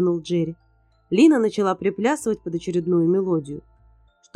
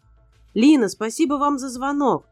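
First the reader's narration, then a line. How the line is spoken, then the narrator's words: Shouted until voice cracked. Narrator (Russian): срывая голос, прокричал Джерри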